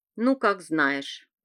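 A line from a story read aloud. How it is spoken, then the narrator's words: Old woman grumbling. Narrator (Russian): проворчала гадалка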